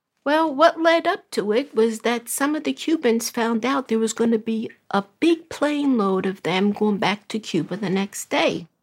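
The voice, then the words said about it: Brooklyn accent. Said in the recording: “originally from Brooklyn. Maybe you can tell by her accent.”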